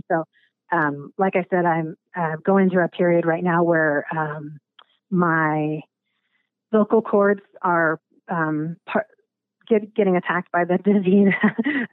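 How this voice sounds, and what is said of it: Raspy, hoarse voice. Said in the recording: “I hear that my voice is getting a little raspy... sometimes my voice gets really raspy like this... I call it my Stevie Nicks voice, but it'll probably get more and more raspy”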